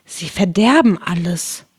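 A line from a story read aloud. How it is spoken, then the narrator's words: Whispered. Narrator (German): flüsterte Alice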